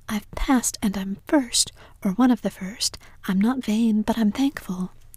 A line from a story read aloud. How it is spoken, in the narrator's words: exclaimed Anne